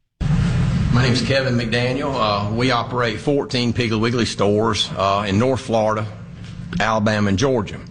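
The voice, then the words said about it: Strong Southern US accent. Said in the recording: “He sounds like a cartoon character. This sounds like a character in a Saturday Night Live skit. But don't be mistaken by the accent.”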